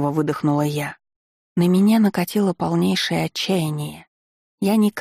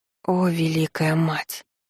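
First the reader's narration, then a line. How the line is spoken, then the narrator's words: Muttering. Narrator (Russian): Пробормотала я, не в состоянии привыкнуть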